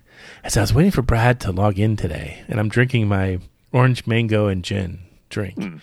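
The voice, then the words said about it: Whispering. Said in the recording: “I'm going to do the whisper thing again.”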